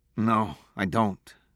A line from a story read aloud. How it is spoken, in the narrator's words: he said sadly